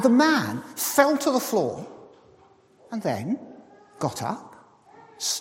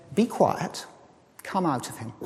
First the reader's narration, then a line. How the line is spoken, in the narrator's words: the guest speaker calmly went up to him and said